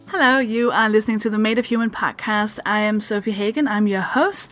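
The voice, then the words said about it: Danish accent. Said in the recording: “I'm a Danish stand-up comedian that should explain the strange accent.”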